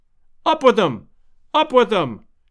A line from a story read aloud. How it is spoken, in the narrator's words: cried 100 voices